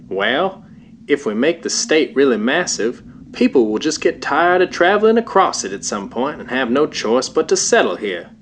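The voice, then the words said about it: Weak attempt at Oklahoma accent. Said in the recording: “I doubt that's even an approximation of an Oklahoma accent.”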